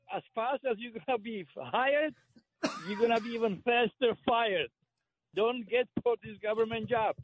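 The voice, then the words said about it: Czech-German accented English. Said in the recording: “I detected an accent there”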